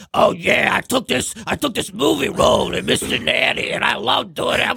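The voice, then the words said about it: Thick New York accent impression. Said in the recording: “he has the thickest like New York accent. Where you're like, is he doing a character?”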